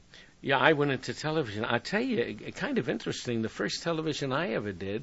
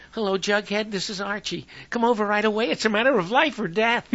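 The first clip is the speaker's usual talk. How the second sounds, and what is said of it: Performs a radio character's voice. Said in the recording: “still do an Archie impression now? ... I have a cold”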